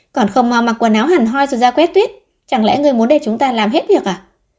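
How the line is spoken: Angry. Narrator (Vietnamese): tức giận nói

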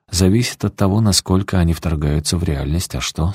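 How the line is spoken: Plain. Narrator (Russian): спросила Эсти

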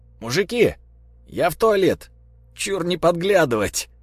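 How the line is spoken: Shouted to another room. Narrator (Russian): крикнул он в сторону кухни

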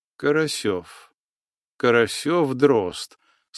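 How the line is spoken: Calm. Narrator (Russian): спокойно произнес атаман

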